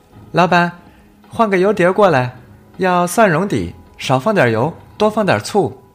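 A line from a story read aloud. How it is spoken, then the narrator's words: Crisp clear call. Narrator (Chinese): 一个清脆的声音喊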